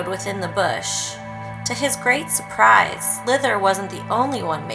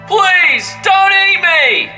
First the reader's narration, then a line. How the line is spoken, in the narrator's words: The Shillalalai started screaming in a deep, low voice that seemed unnatural for his small size